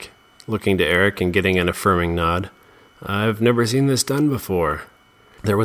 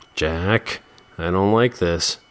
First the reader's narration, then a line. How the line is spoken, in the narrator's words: Jeremy said nervously